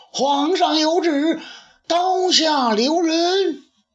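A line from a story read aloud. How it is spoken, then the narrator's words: Urgent shout. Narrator (Chinese): 皇帝的特使大叫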